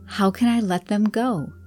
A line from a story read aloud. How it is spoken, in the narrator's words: cried out